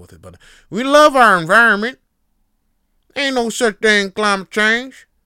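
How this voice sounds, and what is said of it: Put-on Southern US accent. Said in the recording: “I'm going with a southern accent”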